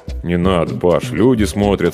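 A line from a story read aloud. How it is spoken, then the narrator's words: Embarrassed mumble. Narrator (Russian): смущенно пробормотал я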